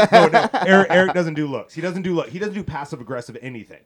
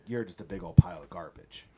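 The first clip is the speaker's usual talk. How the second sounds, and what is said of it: Flat, expressionless imitation of another person. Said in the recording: “gonna do a horrible Eric impression ... without any expression at all”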